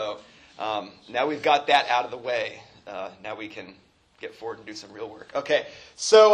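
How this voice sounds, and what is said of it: Usual voice. Nothing is said of it.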